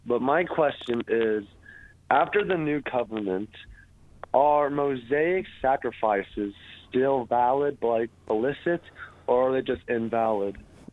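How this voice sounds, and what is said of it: Sick-sounding voice. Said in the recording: “Forgive my voice. I'm a little sick.”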